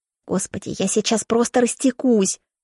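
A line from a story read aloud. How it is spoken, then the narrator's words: Mumbling. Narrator (Russian): мямлит моя подруга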